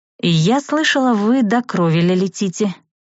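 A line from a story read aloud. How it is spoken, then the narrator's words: Hesitant. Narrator (Russian): неуверенно начала я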